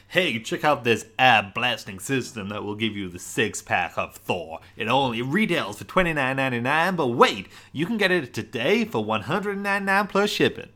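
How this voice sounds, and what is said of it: Cheesy infomercial announcer voice. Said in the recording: “I feel like that was a really good accent for me... I was so into the accent”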